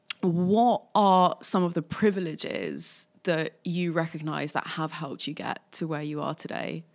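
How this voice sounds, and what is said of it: Posh English accent. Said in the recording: “I do have a fake posh accent”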